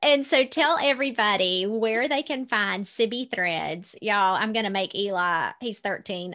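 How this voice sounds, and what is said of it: Smooth Georgia Southern accent. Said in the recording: “You have like this smooth as velvet voice. And then your Georgia accent is so beautiful.”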